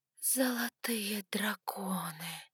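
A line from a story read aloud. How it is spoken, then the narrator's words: Whispered. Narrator (Russian): прошептала я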